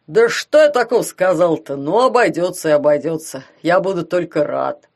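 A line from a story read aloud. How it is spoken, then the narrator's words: Offended low rumble. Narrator (Russian): обиженно прогудел он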